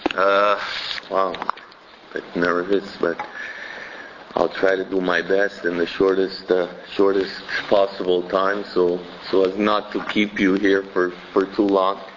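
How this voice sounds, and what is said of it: Voice affected by a cold. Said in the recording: “I'm suffering from a bit of a cold, so my voice is a bit”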